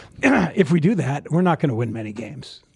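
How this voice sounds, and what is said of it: Impression of Ben Johnson. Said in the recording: “my Ben Johnson impression ... You really nailed it.”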